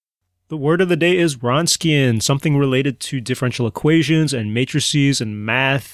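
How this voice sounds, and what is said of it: Strong Chicago accent. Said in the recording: “I'm pronouncing it with my huge Chicago accent”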